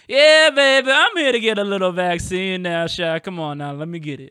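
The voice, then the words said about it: Put-on Cajun accent. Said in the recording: “I can just see the most Cajun person walking into the ... love a good Cajun accent.”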